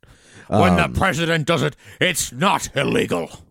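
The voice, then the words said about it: Exaggerated cartoon president voice impression. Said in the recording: “I do an impression of Nixon on Futurama. It's like a watered down, it's like a ramped up Nixon. ... That has then been watered down.”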